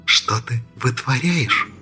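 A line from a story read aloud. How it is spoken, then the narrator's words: Angry whisper. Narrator (Russian): Зло прошептала Энджи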